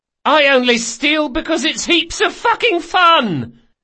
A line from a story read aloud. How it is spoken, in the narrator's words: The boy yelled